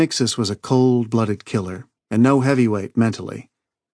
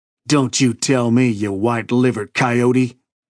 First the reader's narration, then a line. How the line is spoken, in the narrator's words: he snarled